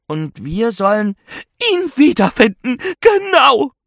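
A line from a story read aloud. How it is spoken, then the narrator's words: Excited ghost woman. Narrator (German): Die Geisterfrau wirkt mehr aufgeregt als verärgert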